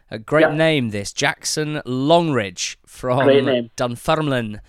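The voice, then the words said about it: Put-on Scottish accent. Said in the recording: “you can actually only say that in a Scottish accent. There's no other way of saying that word. So I hope you'll forgive me.”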